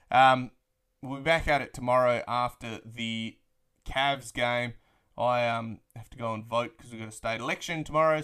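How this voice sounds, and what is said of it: Australian accent, drawling. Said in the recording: “the dulcet tones of my Australian drawl”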